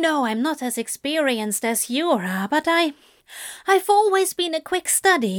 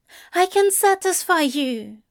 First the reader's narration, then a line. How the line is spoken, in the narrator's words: Aziraphale blurts